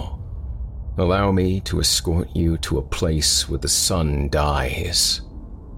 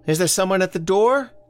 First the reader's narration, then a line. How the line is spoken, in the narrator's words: From the kitchen, Elsie called out